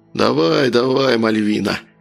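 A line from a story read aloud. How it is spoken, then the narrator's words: Hoarse wheeze. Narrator (Russian): просипел незнакомец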